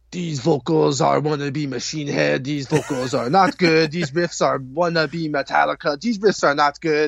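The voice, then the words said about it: Put-on European accent. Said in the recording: “I like that accent. You sound so European right now.”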